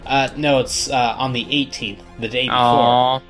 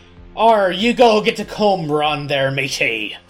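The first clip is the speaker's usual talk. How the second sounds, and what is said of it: Pirate voice. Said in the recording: “talk like a pirate”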